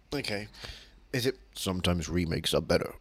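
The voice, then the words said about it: Imitates another person's voice. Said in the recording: “my Ed Gwynn impression”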